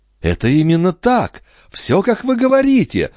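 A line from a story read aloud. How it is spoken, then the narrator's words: Exclaimed. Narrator (Russian): воскликнула она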